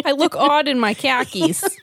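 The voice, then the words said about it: Put-on New Jersey accent. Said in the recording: “We're really going for that New Jersey. Is that a New Jersey accent?”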